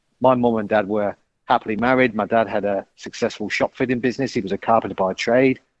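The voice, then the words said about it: English accent from central England. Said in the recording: “you'll probably gather from my accent, I'm not a local boy to Australia ... originally from the UK, a place called Coventry in central England”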